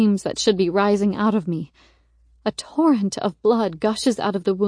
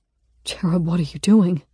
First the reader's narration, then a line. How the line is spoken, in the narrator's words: He asks, his voice torn up